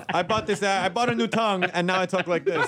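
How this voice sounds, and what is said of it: Al Pacino-style New York accent. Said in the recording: “New York accent guy ... I bought Pacino's tongue.”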